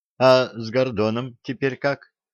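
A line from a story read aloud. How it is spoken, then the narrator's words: Plain. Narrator (Russian): спросила Василиса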